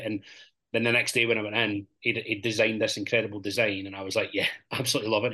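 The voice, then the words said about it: Paisley Scottish accent, some Florida influence. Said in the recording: “Was it for Paisley? That accent. ... Paisley via Florida.”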